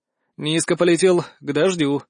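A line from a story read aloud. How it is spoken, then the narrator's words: Sighing. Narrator (Russian): вздохнул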